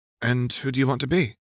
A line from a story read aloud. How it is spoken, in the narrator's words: Rose asked, her voice calm